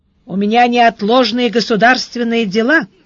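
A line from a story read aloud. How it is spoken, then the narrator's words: Metallic voice. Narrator (Russian): сказал Сварог металлическим голосом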